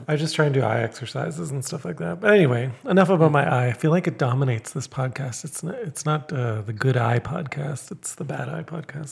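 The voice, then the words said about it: Slightly hoarse voice. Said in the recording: “my voice, you can hear, is like from a day of talking, right? ... It's a little bit hoarse.”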